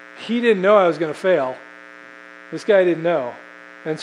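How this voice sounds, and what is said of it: Usual voice. Nothing is said of it.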